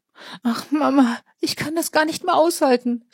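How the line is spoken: Unrestrained sobbing. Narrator (German): schluchzte hemmungslos

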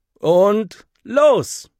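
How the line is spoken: Call. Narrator (German): ruft Henry

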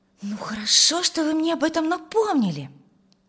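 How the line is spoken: Exclaiming. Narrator (Russian): воскликнула Тамара

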